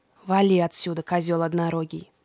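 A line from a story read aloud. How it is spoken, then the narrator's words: Grumbled out of earshot. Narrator (Russian): проворчал Фавнир, когда Индрик уже не мог его слышать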